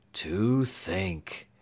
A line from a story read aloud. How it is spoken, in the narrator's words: sighed mournfully